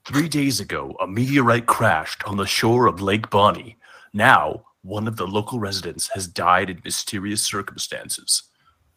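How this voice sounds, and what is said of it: Deep crackly commander voice. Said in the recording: “crackles the commander's deep voice.”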